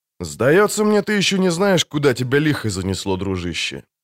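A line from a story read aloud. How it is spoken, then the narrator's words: Calm. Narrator (Russian): спокойно проговорил незнакомец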